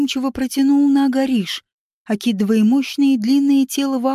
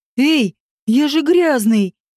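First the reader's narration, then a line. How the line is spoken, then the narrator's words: Yelling. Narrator (Russian): завопил Вааш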